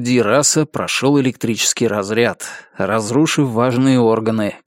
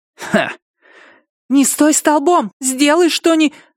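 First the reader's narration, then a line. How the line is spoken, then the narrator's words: Yelling, breaking into hoarseness. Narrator (Russian): заорала Амена и резко осеклась, перейдя на хрип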